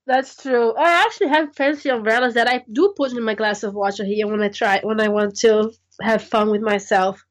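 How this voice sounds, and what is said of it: Throaty sick voice. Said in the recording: “I'm very sick recording this podcast, so excuse my voice. It's very throaty, sexy.”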